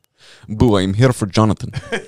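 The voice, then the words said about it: Good put-on Russian accent. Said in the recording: “That's a very good Russian accent. ... That is good.”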